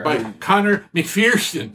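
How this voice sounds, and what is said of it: Put-on Irish accent, rolled R. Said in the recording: “I was trying to do my Irish accent. Oh, I rolled my R.”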